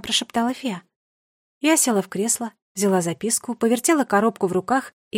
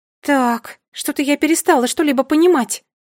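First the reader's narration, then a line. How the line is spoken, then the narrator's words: Exclaimed. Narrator (Russian): воскликнула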